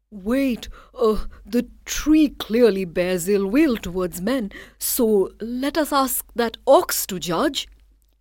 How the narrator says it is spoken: the man cried

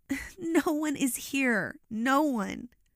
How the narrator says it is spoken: said while I sobbed

